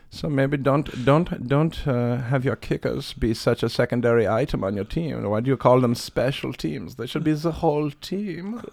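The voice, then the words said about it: Soft put-on German accent, god voice. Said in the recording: “Give me a God voice. ... You do a really good German impression ... do soft German. ... Oh, very soft like this, maybe, as a God voice?”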